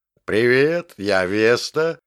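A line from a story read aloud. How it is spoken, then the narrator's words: Deep bass voice. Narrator (Russian): басом сказала оно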